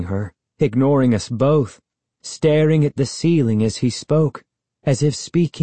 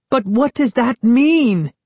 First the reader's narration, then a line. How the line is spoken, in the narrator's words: Sari cried